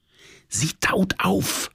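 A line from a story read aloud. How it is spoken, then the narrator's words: Whisper. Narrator (German): flüsterte meine Liebste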